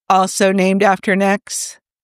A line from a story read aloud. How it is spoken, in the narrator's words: Tony barked out a surprised laugh